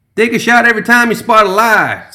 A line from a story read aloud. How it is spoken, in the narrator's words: someone shouted from the back